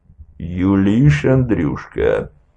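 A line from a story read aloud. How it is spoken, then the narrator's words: Furious growl. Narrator (Russian): прорычал Меншиков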